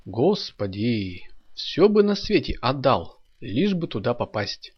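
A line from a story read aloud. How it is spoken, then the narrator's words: Exclaiming. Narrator (Russian): воскликнул Саша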